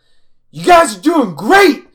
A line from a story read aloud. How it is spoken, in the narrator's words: Jean's still at the top of the hillside, and he just yells down